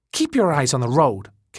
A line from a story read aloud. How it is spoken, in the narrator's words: Kathy snapped